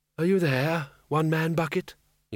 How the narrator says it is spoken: he said softly

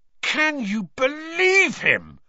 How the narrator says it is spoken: roared Ron, as one of the remaining pixies bit him painfully on the ear

